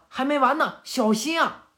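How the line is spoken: Shouted warning. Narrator (Chinese): 博人就对大家喊了

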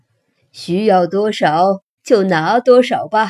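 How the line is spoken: Smiling. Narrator (Chinese): 托比总是笑着说

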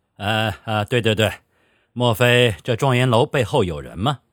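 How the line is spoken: Smoothing laugh. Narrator (Chinese): 范永斗作为主人，也不愿看到客人尴尬，他笑道

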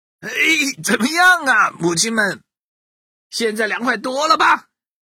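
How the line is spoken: Smug shouting. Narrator (Chinese): 坨坨将军得意的向鸡妈妈们喊话

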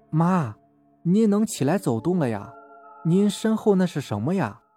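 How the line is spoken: Soft question. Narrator (Chinese): 大儿子轻声问

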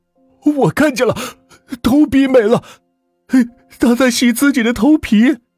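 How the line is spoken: Loud scream. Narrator (Chinese): 王可 只能是放声大叫

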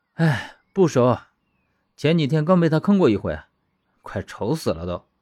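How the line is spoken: Sighing. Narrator (Chinese): 刘长乐叹道

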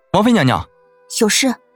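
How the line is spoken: Calling out to stop someone. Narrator (Chinese): 被柳崇明的人追上来叫住

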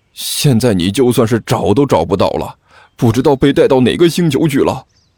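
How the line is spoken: Glum, tearful. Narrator (Chinese): 老二哭丧着脸说道

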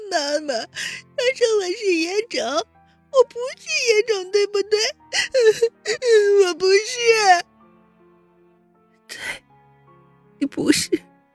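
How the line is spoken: Child crying. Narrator (Chinese): 阎洛北咧开嘴哭起来

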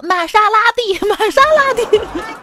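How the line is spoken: Proud. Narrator (Chinese): 特别骄傲的说

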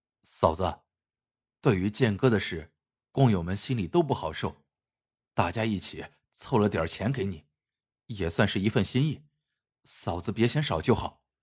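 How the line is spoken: Soft. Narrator (Chinese): 马万三轻声说

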